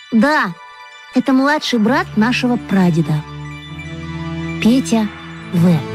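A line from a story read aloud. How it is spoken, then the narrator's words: Quiet. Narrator (Russian): Маша тихо сказала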